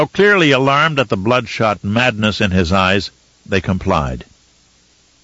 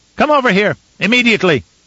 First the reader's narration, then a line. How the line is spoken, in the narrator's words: he shouted